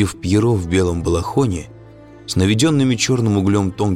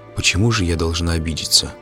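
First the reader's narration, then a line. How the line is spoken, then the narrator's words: Said quietly. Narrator (Russian): тихо сказала Мария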